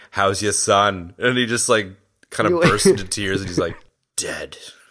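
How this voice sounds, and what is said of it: Imitates another person's voice. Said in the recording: “your Arnold impression”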